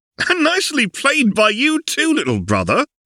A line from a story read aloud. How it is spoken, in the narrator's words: called out across the hall with the appearance of good cheer